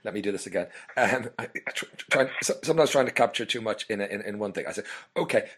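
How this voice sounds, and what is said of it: Hoarse voice. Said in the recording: “I don't know if it's my hoarseness”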